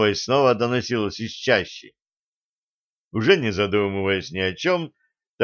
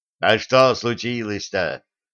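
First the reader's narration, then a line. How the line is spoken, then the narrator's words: Growling. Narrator (Russian): прорычал Милован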